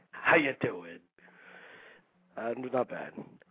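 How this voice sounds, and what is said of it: De Niro impression. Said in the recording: “very De Niro-esque accent. That's very good.”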